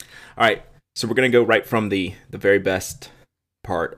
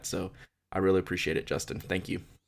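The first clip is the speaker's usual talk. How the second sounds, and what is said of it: Choked-up, emotional voice. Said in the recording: “Whew, I'm gonna get choked up again”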